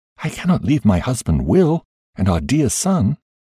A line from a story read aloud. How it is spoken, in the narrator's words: There I paused and said earnestly